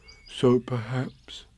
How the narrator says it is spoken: he said sadly to himself

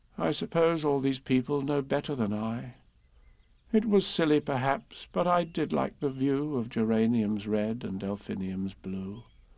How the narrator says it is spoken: the dormouse said with a sigh

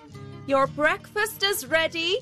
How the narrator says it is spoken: his housekeeper called out

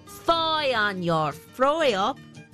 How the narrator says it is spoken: snarls the weaver

